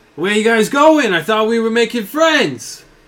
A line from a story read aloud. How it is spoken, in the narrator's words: Vodak yells out